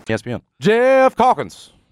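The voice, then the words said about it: Impression of John Martin. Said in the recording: “my John Martin impression”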